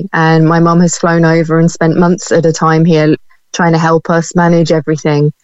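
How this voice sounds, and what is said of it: British accent. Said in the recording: “you can probably tell from my accent, I'm from the UK”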